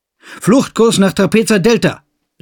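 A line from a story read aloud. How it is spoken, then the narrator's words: Shouted. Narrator (German): rief Roden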